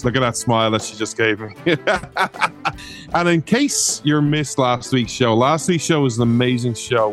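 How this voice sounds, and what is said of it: Irish accent. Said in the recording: “This Irish man ... you come for the accent”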